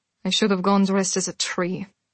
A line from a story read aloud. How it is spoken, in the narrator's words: Celine said in a flat tone